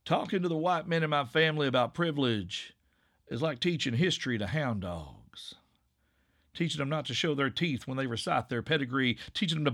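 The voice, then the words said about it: Put-on rural Appalachian drawl. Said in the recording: “in this dialect ... the whole like hick accent”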